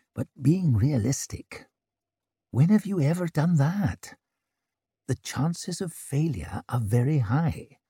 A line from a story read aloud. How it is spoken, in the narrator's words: muttered Orso